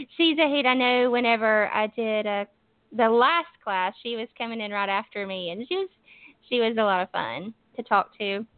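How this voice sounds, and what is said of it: Southern US accent, Alabama. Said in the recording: “you definitely have an accent ... I am from Alabama. I'm from the northern part of Alabama ... Yeah, definitely have the southern accent.”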